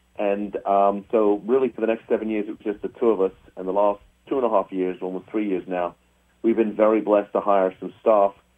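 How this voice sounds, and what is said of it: English accent. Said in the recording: “where's your accent from? Where's that accent from? ... people ask me if I'm from New England. I tell them, no, I'm from Old England, and I'm originally from the United Kingdom.”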